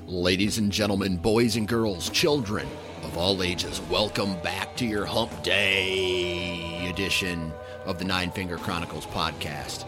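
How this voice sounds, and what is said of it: Hyped monster truck announcer voice. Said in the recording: “That was my monster truck announcer voice trying to get you guys fired up”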